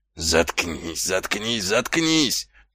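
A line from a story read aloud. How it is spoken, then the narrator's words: Groaning sergeant. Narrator (Russian): простонал сержант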